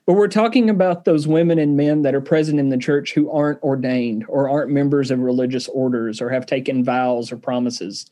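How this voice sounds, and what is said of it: Southern English accent. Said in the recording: “for those of you who don't speak Southern English ... Sometimes it doesn't come through with my accent.”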